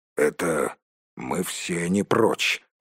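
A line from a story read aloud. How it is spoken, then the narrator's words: Grumbled. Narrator (Russian): буркнул Торин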